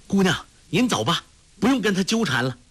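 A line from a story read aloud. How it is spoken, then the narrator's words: Calling out. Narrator (Chinese): 陆冠英叫道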